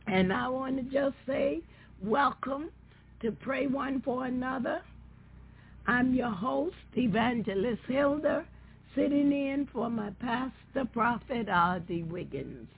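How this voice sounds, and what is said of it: Scratchy voice. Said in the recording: “excuse my voice. I have a cold, and so my voice is a little scratchy this evening”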